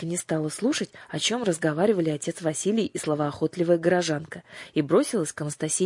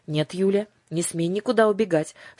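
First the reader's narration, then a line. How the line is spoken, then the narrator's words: Stern. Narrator (Russian): строго сказала бабушка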